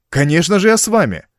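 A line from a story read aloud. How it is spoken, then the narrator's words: Surprised, dazzled exclamation. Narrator (Russian): воскликнул я, застигнутый врасплох и ослепленный уникальной возможностью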